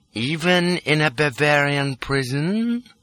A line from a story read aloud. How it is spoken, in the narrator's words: says young Rudy sweetly